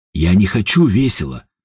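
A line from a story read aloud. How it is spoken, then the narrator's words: Grumbling. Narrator (Russian): ворчал Степан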